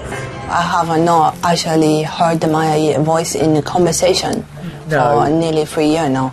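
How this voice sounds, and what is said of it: Chinese-sounding accent. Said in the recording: “She's got a Chinese accent.”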